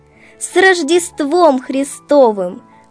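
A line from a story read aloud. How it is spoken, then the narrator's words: Joyful greeting. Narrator (Russian): радостно поздравила хозяев Машенька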